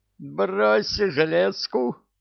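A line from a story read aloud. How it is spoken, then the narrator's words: Shrieking mirror. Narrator (Russian): визжало зеркало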